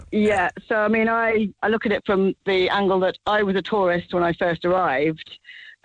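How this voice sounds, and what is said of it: Accent not from Cork. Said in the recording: “you can probably tell from my accent, I'm not actually from Cork originally.”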